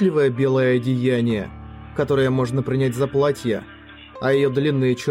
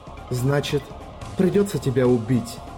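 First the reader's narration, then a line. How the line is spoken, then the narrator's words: Whisper. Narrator (Russian): прошептала Шики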